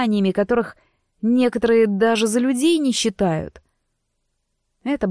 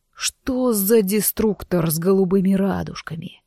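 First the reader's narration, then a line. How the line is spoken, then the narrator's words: Through gritted teeth. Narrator (Russian): процедил он сквозь зубы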